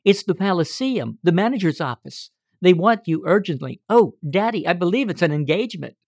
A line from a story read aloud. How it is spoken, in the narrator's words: cried